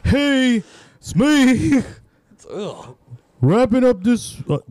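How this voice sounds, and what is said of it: Put-on stereotyped character voice. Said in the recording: “that's your best lesbian? ... this is my lesbian voice, but I sound like a Wachowski ... you sound very 90s like lesbian ... sounds very cross-dressing”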